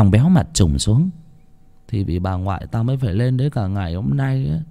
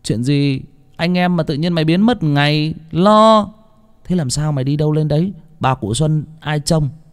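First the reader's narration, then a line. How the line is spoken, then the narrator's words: Loud. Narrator (Vietnamese): Thằng Bình cũng lớn tiếng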